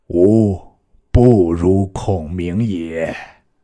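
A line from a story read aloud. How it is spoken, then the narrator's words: Regretful sigh. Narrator (Chinese): 亦悔之不及，仰天叹曰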